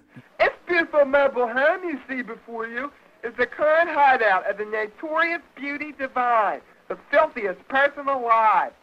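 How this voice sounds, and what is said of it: Very thick Baltimore accent. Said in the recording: “John Waters doing the thickest Baltimore accent”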